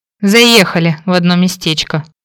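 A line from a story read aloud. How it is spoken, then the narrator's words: Grumble. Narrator (Russian): пробурчала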